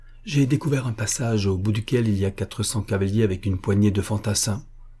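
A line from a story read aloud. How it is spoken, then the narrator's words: Plain. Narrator (French): répondit Magnus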